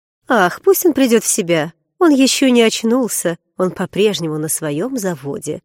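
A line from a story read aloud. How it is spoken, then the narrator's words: Cheerful voice. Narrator (Russian): веселым голосом произнесла жена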